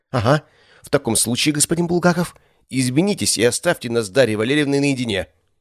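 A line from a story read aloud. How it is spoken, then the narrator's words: Hissing. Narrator (Russian): прошипел Коршунов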